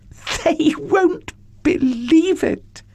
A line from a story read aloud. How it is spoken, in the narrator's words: she laughed